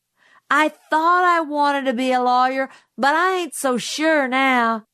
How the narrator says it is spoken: Jim yelled after him

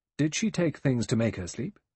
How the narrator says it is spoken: The doctor said sharply

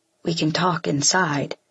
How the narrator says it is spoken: says quietly

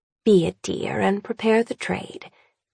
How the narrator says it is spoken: Annabel murmurs

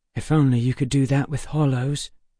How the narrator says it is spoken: Emma whispered to me

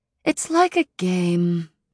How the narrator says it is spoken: she said, sighing through her pert nose

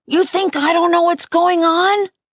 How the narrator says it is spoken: I yelled

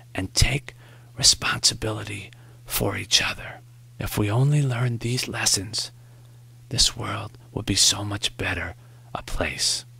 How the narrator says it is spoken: Morrie whispered

